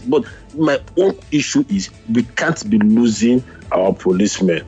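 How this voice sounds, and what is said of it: Raised, rising agitated voice. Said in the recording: “my voice is beginning to go up”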